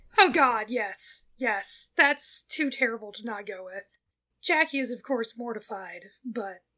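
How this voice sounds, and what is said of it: Usual voice. Nothing is said of it.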